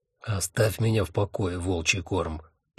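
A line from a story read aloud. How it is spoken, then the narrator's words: Grumbling. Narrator (Russian): проворчал Один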